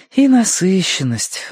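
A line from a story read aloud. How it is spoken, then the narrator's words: Sighing. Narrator (Russian): вздохнула Верити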